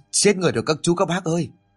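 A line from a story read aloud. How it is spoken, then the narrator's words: Panicked voice. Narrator (Vietnamese): cậu ta hốt hoảng ... nói bằng một giọng hoảng hốt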